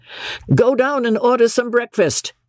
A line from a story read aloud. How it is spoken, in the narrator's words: McMurdo said to his man in a loud, cheerful voice